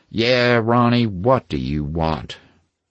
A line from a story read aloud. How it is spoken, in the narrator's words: growled